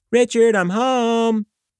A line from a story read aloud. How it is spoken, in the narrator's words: yelled from the top of the stairs